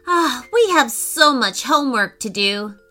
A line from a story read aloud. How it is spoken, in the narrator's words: sighed Declan